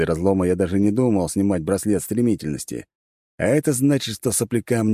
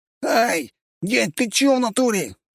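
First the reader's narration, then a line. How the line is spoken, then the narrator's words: Boy's yell while falling. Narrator (Russian): заорал пацан, упав на землю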